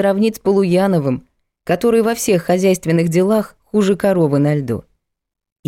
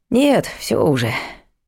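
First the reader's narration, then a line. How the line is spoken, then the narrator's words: Sighing. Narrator (Russian): вздохнул Влад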